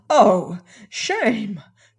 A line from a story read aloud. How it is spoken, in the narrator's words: cried I